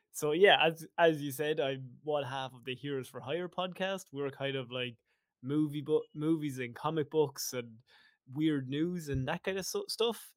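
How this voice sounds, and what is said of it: Irish accent. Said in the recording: “I have the Irish accent.”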